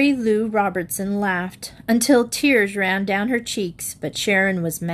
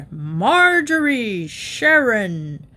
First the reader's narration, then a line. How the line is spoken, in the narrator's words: Rogers was so mad he roared